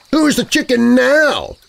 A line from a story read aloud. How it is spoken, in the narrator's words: shouted back to her from about 10 feet away